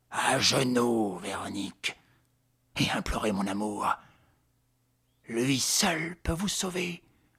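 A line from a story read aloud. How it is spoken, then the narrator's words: Restrained, menacing voice. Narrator (French): d'une voix contenue où grondait la menace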